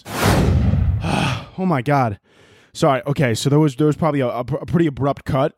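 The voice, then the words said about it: Out of breath. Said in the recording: “out of breath”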